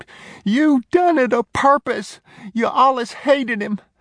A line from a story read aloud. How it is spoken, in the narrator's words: He screamed